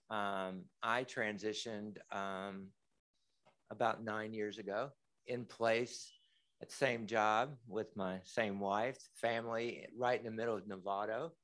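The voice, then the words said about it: Slight Kentucky accent. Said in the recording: “I was born and raised in Kentucky. You might hear a little bit of an accent.”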